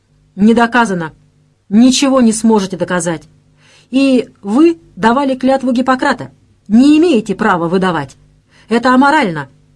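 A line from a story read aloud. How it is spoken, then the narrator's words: Driver shouting. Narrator (Russian): крикнул водитель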